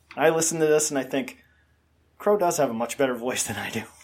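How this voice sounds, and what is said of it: Nasal, congested voice. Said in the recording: “I say with my nasally congestion here”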